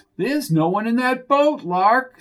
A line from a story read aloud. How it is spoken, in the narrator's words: screamed Flo